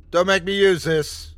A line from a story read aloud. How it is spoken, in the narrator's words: I yelled at it again